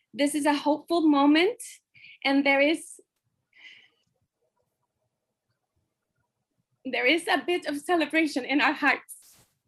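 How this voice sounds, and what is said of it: Emotional, choked-up voice. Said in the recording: “I'm sorry for getting emotional.”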